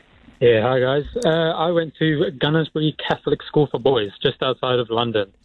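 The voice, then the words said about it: Posh-sounding English accent. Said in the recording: “sounds posh, but it might just be your accent”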